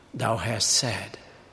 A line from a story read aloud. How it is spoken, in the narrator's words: he replied calmly